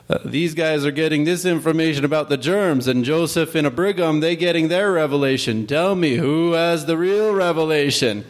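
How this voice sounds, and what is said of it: Poor imitation of another person's voice. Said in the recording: “my really horrible impression”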